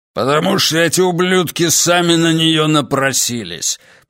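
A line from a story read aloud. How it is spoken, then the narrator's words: Growling. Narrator (Russian): прорычал Верзила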